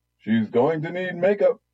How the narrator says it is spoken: the host bellowed

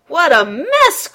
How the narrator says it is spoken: cried his papa

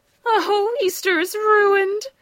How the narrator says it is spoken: sobbed Ladybug

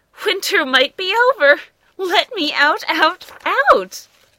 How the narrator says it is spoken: One giggly groundhog announced with a shout

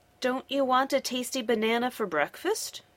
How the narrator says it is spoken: she asked

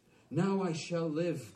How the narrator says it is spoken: cried the tree, rejoicingly

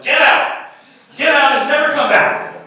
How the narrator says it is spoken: the woman was yelling

